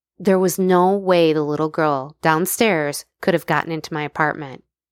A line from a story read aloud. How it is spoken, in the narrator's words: she said